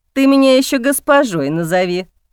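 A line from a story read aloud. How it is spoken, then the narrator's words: Laughing woman. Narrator (Russian): смеялась женщина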